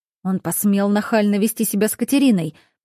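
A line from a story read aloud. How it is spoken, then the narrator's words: Angry growl. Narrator (Russian): прорычал Стивен, зло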